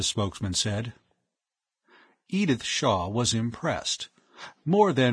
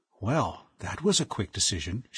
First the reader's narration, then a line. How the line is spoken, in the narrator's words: she whispered